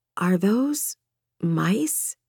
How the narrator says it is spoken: croaked

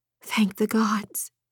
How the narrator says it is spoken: she whispered

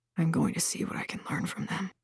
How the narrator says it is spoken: he said softly

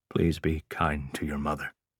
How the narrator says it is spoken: said softly

